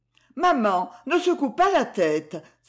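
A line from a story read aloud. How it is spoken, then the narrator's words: Sharp exclamation. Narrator (French): s'écria Esther vivement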